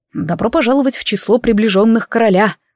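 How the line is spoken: Smirking snort. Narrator (Russian): хмыкнул Шон

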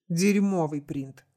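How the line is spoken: Angry snap. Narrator (Russian): зло бросил Хиллари

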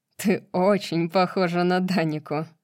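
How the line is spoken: Laughing. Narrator (Russian): засмеялся Ригелус

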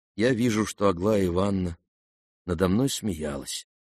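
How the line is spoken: Sad reply. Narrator (Russian): грустно ответил князь

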